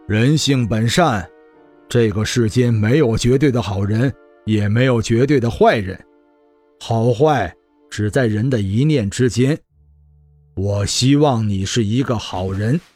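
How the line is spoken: Faint calm laugh. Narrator (Chinese): 男子淡淡的笑道

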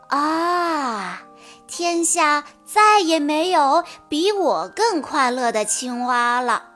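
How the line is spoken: Wistful sigh. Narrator (Chinese): 青蛙感叹道

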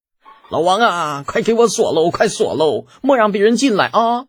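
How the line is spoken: Alarmed shouting. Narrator (Chinese): 当下大惊，直喊那狱卒

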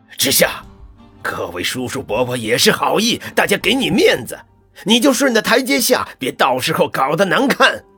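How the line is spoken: Furious man. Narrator (Chinese): 温博远一听，脸色变得铁青，怒极

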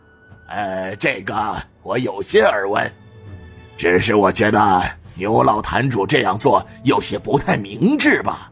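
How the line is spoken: Faint calm smile. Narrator (Chinese): 杜乃谦又是淡淡的一笑

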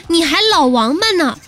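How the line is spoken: Giggling with delight. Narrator (Chinese): 我在旁边乐得咯咯的笑

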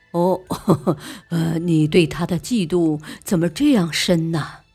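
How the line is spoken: More angry. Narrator (Chinese): 莲香更加气愤的说

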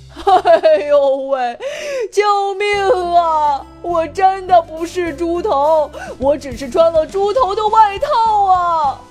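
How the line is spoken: Wailing howl. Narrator (Chinese): 叔叔的鬼哭狼嚎

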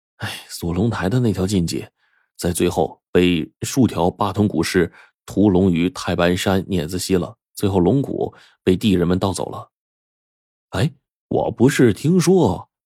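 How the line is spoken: Stunned, sighing. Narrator (Chinese): 着实一愣，最后叹了口气说

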